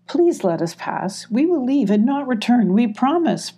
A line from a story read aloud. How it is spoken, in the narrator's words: pleaded Emmy